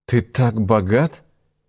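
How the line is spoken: Smiling through tears. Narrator (Russian): улыбнулась она сквозь слезы

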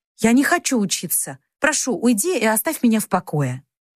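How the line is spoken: Irritated capricious exclamation. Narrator (Russian): поддалась капризу и раздраженно воскликнула

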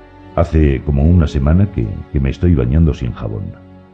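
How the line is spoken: Plain. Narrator (Spanish): dijo

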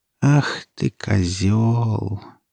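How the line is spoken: Sad mumble. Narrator (Russian): печально пробормотала она

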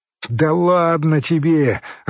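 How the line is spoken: Policeman laughing from behind. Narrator (Russian): рассмеялся за его спиной милиционер

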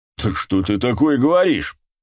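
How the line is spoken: Exclaimed. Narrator (Russian): воскликнул Зеро

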